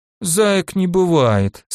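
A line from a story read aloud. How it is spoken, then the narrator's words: Sleepy. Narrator (Russian): сказала она сонно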